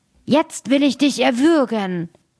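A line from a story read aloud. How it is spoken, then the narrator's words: Dead man calling out. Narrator (German): Der Tote aber fing an und rief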